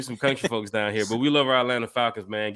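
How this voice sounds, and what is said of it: Southern US accent. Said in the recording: “This is that southern accent, man.”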